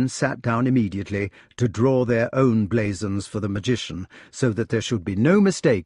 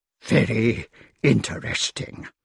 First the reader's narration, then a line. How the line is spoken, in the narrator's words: he said in a trembling voice